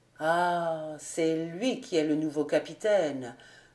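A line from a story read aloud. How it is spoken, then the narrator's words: Slow, pensive murmur. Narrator (French): murmura lentement et d'un air pensif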